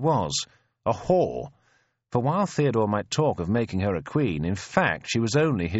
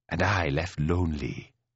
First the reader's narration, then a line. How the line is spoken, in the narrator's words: she murmurs